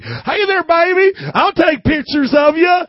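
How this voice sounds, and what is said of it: Put-on Southern accent, catcalling man. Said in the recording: “anybody I imitate always talks Southern, okay? So even though they weren't Southern, this is how it sounded to me.”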